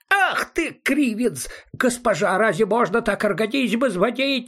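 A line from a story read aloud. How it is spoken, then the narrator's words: Wailing yell. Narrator (Russian): завопил он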